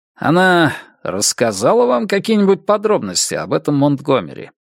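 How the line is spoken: Plain. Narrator (Russian): спросил Мёрфи

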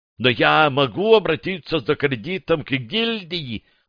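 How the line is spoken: Shrill squeal. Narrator (Russian): взвизгнул Грасс

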